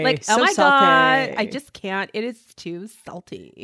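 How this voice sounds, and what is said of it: Valley Girl voice. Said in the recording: “my Valley Girl impression ... that Valley Girl impression”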